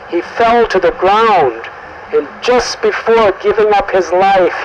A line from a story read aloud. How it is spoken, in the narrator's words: he called out in the exact sound of Ram's voice